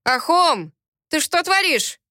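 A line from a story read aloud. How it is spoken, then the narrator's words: Soldier shouting. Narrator (Russian): выкрикнул один из солдат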